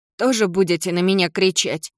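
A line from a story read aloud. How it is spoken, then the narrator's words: Hateful grumble. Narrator (Russian): буркнула она с ненавистью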